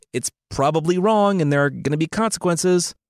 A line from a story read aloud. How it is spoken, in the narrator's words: Angus yelled